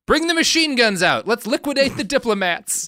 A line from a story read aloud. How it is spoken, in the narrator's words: Stalin shouts out